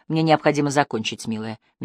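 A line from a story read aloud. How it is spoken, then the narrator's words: Soft objection. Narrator (Russian): мягко возразил Апман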